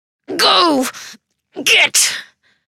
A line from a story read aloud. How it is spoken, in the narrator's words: Another contraction rips through Molly's body, and through clenched teeth, she says